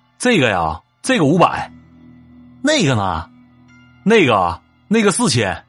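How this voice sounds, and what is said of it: Heavy Northeastern Chinese accent. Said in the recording (Chinese): “操着浓重的东北口音说”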